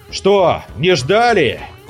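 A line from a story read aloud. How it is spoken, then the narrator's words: Roaring through hall. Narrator (Russian): проревел неизвестный на весь зал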